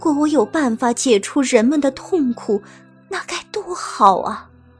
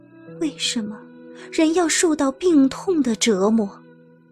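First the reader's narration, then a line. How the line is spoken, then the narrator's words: Murmuring to himself. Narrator (Chinese): 他喃喃自语道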